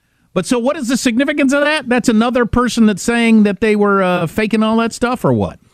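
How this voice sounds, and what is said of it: Usual voice. Nothing is said of it.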